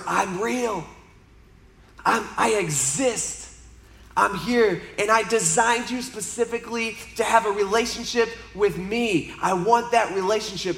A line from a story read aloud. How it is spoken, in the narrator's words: God would whisper